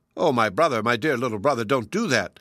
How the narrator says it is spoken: cried the magpie, in his anguish

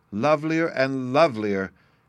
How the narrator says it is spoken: exclaimed Sylvie, in ecstasy

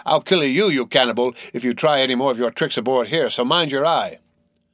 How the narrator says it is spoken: roared the captain

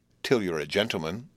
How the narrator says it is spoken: said Biddy

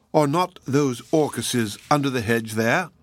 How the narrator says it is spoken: he said

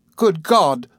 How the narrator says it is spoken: cried Traddles

